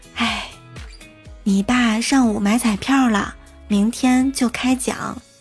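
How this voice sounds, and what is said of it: Quiet, secretive whisper. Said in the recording (Chinese): “神秘一笑， 小声的说”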